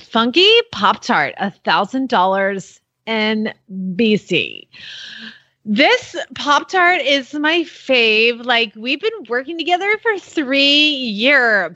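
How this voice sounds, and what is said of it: Exaggerated teenage girl voice. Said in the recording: “she requests that I read it in my teenage voice.”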